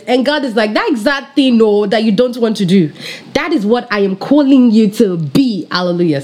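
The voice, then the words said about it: African accent coming through. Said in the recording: “So I got my African accent there because I'm passionate about what I'm about to say.”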